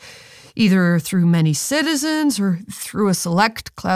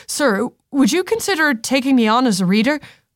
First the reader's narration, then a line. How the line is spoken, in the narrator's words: Thalen blurted out